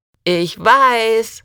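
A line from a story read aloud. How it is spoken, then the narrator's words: Called back. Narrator (German): rief Rusty zurück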